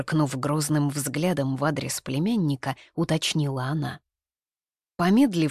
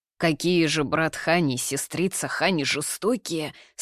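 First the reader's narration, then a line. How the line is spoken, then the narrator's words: Sorrowful sigh. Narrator (Russian): сокрушенно вздохнул Наньгуадзы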